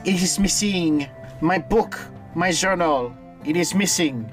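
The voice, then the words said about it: Put-on French accent. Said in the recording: “That's my best attempt at a French accent ... You sounded uncannily like a pretty French girl”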